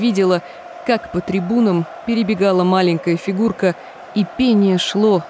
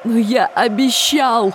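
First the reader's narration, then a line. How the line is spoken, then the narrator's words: Sobbing. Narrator (Russian): прорыдал Трев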